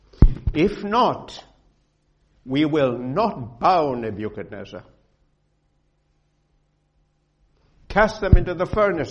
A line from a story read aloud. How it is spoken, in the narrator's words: he said